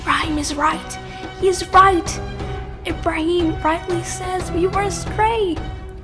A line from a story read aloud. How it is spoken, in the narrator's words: Little by little, people started to whisper